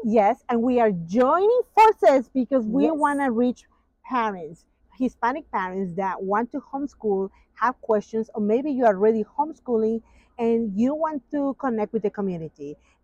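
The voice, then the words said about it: Hispanic accent in English. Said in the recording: “as Hispanics, we speak English with an accent”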